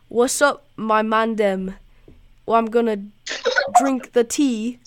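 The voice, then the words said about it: Put-on English accent. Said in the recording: “Now in English accent. ... You sound like you're from an all-boys school.”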